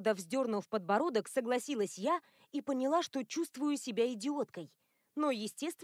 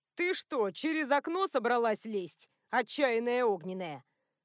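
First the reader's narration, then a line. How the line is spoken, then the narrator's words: Amused snort. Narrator (Russian): хмыкнул друг Адама Ципор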